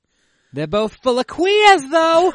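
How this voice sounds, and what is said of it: Put-on Boston accent. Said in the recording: “It's hard to think of things to say in a Boston accent”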